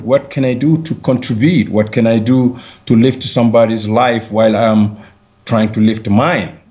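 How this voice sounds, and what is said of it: Mixed African and American accent. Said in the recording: “you mix your African accent and the American accent and wherever else you went in your life”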